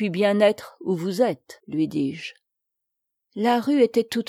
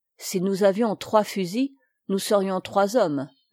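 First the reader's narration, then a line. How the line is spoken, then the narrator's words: Plain. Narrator (French): répondit l'ouvrier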